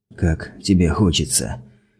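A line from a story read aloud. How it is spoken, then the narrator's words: Hoarse question. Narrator (Russian): хрипло спросил Гипер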